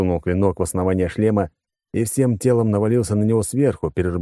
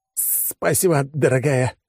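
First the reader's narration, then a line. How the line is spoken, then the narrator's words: Forced, strained. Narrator (Russian): выдавил я из себя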